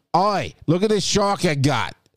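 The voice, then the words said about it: Deliberately bad Australian accent. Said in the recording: “that's my worst Australian accent I can do”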